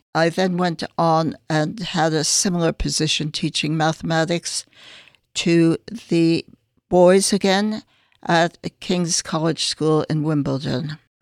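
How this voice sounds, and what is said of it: Noticeable non-London accent. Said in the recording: “I'm picking up a bit of an accent there, so I'm guessing you're not from London originally”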